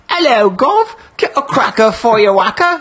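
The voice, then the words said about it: Put-on Australian drifting into Cockney. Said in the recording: “my Australian accent always turns into like a Cockney accent. I always start with the Australian”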